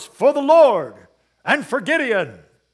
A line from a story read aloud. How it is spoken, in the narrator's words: they are to shout these words